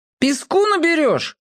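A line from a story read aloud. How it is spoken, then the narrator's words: Shout. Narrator (Russian): крикнул Борька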